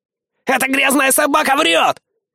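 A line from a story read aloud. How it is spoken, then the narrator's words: Yell. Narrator (Russian): Игги заорал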